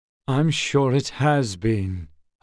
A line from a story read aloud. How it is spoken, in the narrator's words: Holes said wearily